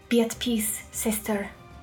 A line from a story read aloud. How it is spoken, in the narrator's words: Whisper said to it in Draconic, which seemed to soothe the beast